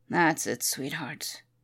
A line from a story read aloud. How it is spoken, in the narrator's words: murmured